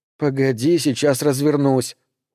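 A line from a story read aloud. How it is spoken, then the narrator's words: Glum, dejected. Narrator (Russian): уныло сказала Джулия, чувствуя себя так, словно кто-то отменил Рождество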